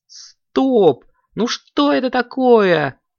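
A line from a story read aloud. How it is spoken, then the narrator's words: Exclaiming. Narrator (Russian): воскликнул Коржик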